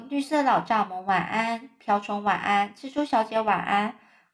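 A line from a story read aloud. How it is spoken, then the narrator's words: Murmuring. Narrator (Chinese): 他喃喃地说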